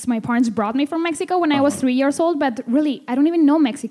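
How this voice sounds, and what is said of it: Slight Spanish accent. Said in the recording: “I know I have a little accent because we speak Spanish at home all the time”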